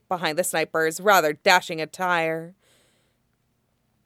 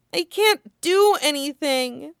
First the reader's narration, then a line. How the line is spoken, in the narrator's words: Chopper whimpers